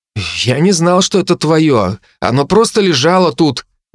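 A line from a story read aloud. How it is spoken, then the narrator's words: Forced out, guilty. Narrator (Russian): выдавил он с виноватым видом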